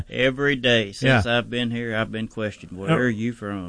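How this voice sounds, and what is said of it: Southern US accent. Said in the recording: “judging by the accent ... South Georgia. Way down deep south.”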